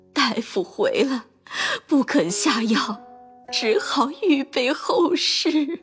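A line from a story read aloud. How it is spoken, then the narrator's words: Weeping while telling. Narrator (Chinese): 一面哭着，一面告诉贾政说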